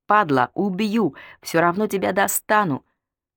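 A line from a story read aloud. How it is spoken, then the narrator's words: Hoarse screaming. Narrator (Russian): Она орала так хрипло, как будто только что чуть не перегрызла не Белкина, а свое собственное горло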